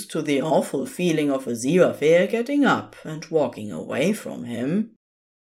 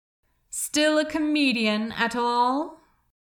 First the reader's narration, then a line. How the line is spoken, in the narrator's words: Crowley laughed bitterly out loud